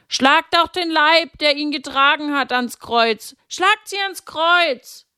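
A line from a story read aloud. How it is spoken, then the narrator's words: Crowd shouting. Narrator (German): Und manche schrien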